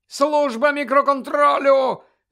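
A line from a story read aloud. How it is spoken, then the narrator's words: Shout. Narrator (Ukrainian): закричав Колінс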